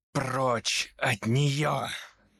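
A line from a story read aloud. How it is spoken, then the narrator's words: Male growl. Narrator (Russian): зарычал Томас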